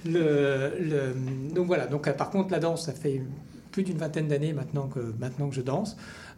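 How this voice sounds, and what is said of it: French accent from France. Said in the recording (French): “à mon accent on entend que je, viens de France”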